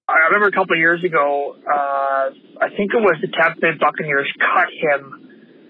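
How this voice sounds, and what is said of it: Mild Canadian accent. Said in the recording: “a Canadian accent. It's not like, it's not even like a super thick, like Northern Wisconsin type of thing, but there's just a couple words that you just, you hear it and you're like, oh, Canada.”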